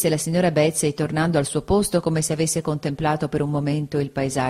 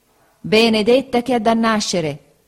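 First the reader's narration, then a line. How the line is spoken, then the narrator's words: Exclamation. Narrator (Italian): esclamò la signora Bezze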